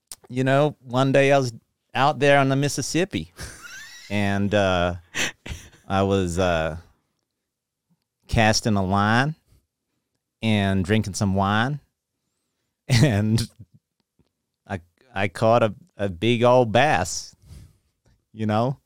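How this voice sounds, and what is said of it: Put-on accent. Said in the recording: “Answer the Tipper question in this accent.”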